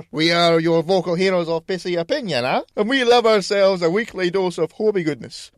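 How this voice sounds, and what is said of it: Accent drifting from French to Scottish. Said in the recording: “It started off French and then just went back to Scottish. ... I can't fucking do the whole thing in an accent.”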